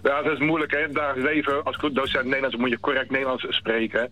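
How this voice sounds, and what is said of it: Dutch Westlands regional accent. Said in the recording (Dutch): “ik hoor het al. Met jouw Westlands accent is helemaal niks mis.”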